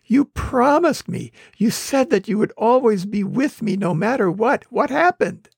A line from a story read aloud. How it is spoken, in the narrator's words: The man whined